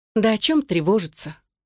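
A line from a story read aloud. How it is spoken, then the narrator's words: Dejected tone. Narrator (Russian): упавшим тоном произнесла Даша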